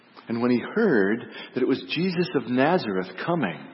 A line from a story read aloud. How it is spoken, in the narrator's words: he cried out in a loud voice